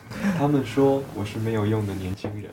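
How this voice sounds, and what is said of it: Speaking too quietly. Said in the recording (Chinese): “太小声了。”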